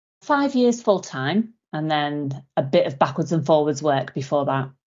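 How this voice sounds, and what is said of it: Liverpool accent. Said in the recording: “Where's your accent from? ... I'm from Liverpool originally.”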